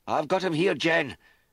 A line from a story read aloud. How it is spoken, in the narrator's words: Mac shouted